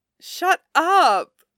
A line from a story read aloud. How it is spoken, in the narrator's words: Allison says, laughing